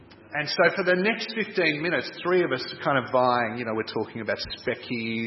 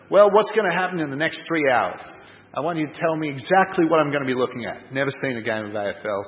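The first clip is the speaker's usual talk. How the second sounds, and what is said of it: Poor put-on American accent. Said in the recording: “a guy who had an American accent ... Sorry about the accent. It's very poor.”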